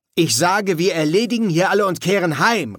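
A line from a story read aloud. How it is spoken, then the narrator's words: Calling out. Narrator (German): rief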